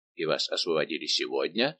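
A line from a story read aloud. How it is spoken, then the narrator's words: Plain. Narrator (Russian): спросил он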